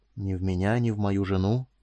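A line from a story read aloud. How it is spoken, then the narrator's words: Even, soft tone. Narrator (Russian): продолжил он ровным и мягким тоном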